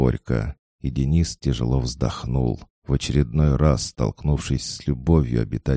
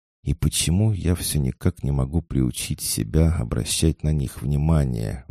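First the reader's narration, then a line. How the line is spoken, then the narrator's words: Young man sighing. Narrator (Russian): вздохнул парень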